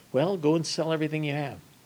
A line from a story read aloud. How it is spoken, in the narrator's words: Jesus does like he always does, gently and sweetly and kindly says